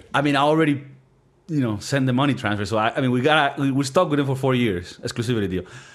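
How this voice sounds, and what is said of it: Speaks English with a foreign accent. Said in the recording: “they've been listening to my accent for a minute ... what do people think about this accent? Is it sexy or is it like, hey, bro, go to fucking class. Learn how to speak. ... Venezuela.”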